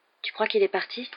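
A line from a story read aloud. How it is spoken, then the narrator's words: Murmured. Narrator (French): murmura Harry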